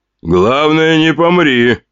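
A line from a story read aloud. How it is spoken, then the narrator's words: Smirking grunt, man. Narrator (Russian): хмыкнул крепкий мужчина в черных очках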